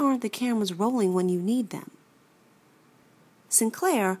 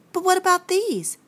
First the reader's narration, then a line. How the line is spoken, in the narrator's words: Sinclair pleaded